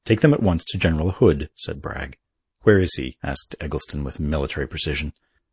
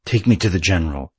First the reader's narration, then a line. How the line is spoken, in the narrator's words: he gasped